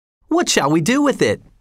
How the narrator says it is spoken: cried several voices

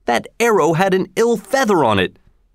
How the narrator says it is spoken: cried Robin

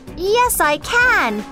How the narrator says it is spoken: said Alice loudly

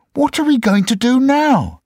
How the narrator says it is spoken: they cried

